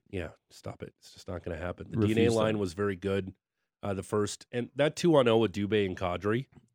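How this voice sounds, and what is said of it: Raspy, hoarse voice. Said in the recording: “Excuse my raspy voice ... Might as well pick up smoking after what my voice sounds like.”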